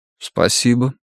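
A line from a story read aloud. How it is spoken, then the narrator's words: Quiet thanks. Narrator (Russian): тихо поблагодарил Юханнес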